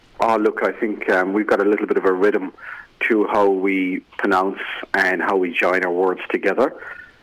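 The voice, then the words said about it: Irish accent, slowed, with a lilt. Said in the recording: “Why do we love this? this Irish accent? ... I've slowed down my accent considerably ... I just think there's a little bit of a lilt”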